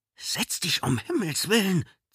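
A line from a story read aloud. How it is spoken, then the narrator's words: Hissed. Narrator (German): zischte Marquardt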